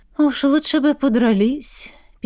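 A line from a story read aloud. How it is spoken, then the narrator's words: Sad sigh. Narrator (Russian): Печально вздохнул эльф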